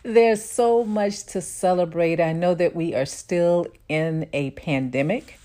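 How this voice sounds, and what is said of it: Happy, cheerful tone. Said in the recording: “hear the happiness in my tone”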